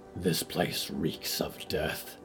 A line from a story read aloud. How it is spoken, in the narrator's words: she hissed